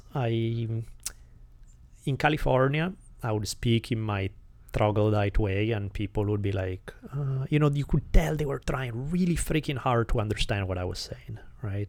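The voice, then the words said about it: Italian-accented English. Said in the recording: “my English was, if at all possible, worse than it is now ... my accent was indeed, if now is bad ... Italian accent”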